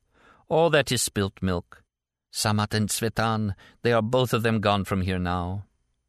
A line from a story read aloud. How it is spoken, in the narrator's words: the woman added with a drawn-out sigh